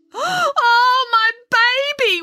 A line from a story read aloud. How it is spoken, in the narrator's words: wailed Mrs